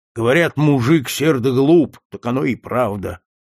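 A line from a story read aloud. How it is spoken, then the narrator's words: Grumbling. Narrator (Russian): ворчал он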